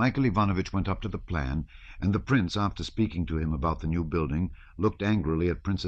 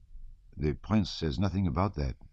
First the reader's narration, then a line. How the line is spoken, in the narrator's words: he remarked gently